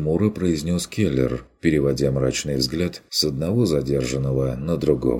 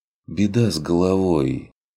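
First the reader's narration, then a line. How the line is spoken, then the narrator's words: Sigh. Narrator (Russian): вздохнул Курт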